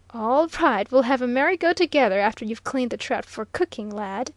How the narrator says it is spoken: laughed his elder

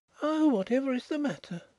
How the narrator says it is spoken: she exclaimed

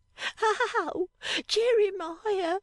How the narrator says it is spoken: cried Affery, waking

